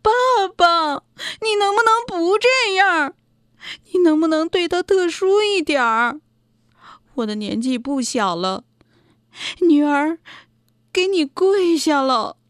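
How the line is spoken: Anxious crying. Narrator (Chinese): 顾南丹急得哭了起来

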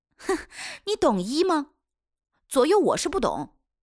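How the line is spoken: Chuckling. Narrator (Chinese): 威农呵呵地笑

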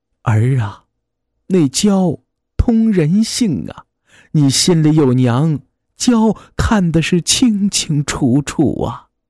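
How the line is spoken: Heavy sigh. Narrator (Chinese): 怔了半天，重重地叹了一口气

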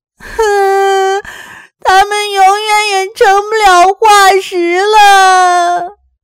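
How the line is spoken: Wailing in grief. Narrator (Chinese): 伤心地嚎啕大哭起来

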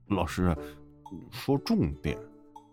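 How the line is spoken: Impatient interruption. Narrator (Chinese): 沙枪忍不住打断

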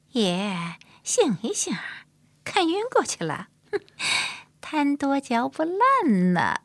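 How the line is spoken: Laughing. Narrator (Chinese): 云碧笑着说

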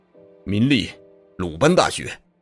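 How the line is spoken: Mocking, loud answer. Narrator (Chinese): 古铁铮那寒星一般的眼睛闪烁着嘲弄的微笑，响亮的答道

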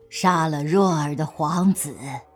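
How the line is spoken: Long sigh. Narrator (Chinese): 景太后长叹一声

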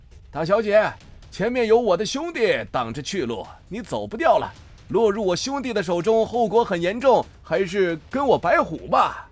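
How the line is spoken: Shouting from behind. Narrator (Chinese): 白虎在后面喊道

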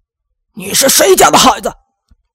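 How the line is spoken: Muffled roar. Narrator (Chinese): 王大爷闷闷地吼了一声

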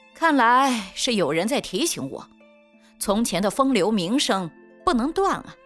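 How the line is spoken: Casual laughing reply. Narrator (Chinese): 云晨云淡风轻地笑回

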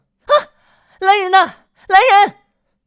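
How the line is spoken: Startled cry. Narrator (Chinese): 玛丽惊叫一声

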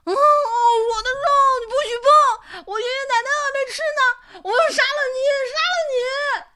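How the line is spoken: Crying and cursing. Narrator (Chinese): 他边哭边骂

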